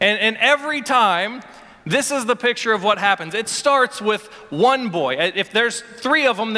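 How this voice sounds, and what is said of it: Usual voice. Nothing is said of it.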